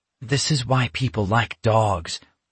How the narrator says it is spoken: Alex muttered

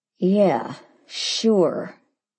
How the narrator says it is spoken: he said through clenched teeth

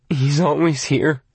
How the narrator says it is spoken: Arnie groaned

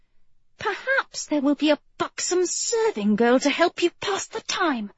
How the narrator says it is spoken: she snapped without thinking

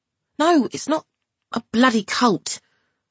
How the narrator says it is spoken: barked Irie, exasperated

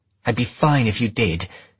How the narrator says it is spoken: she snapped

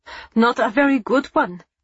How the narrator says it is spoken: she retorted fiercely

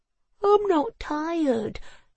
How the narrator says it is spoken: he yawned

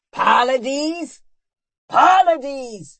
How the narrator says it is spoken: roared Merith

